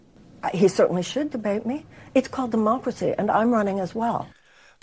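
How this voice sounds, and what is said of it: Thick regional accent. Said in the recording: “does she always have that accent? Was she always laying the accent on that thick?”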